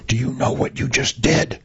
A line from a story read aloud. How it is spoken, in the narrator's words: he whispers